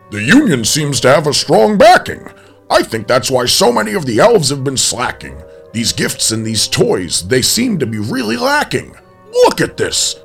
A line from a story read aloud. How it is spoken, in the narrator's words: Santa barked